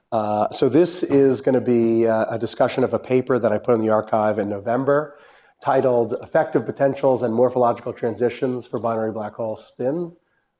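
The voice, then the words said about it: Congested, slightly strained voice. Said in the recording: “I got a little bit of a cold ... My voice is not the best”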